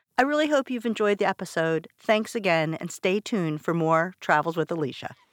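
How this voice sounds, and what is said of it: Strong Baltimore accent. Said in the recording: “I have the most authentic Baltimore accent that he's ever heard”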